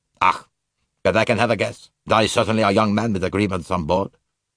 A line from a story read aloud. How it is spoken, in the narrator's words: Bessner said dryly